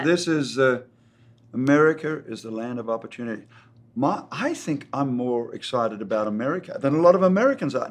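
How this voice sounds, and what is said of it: Slight Australian accent. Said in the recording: “do I still sound Australian? ... Or a little bit.”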